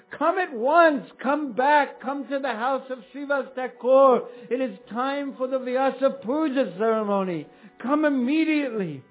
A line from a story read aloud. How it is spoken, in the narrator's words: Lord Chaitanya called out